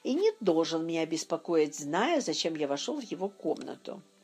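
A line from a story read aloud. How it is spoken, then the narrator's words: Grumbling to oneself. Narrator (Russian): проворчал я про себя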